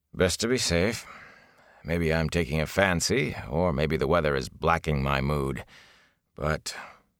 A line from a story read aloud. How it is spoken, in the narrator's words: he sighed